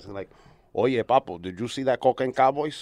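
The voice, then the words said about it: Good Scarface-style gangster impression. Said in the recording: “a very good Tony Montana impersonation.”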